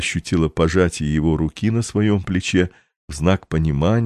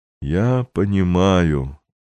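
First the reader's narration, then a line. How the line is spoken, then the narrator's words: Slow and sad. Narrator (Russian): медленно и печально произнес граф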